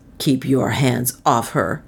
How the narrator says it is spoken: said Northmore fiercely

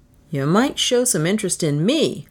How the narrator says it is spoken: I grumbled

